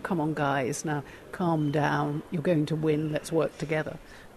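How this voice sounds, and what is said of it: Gentle, soothing coaxing voice. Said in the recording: “in a gentle voice”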